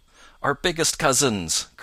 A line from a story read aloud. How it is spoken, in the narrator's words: cried Peter and Jumper together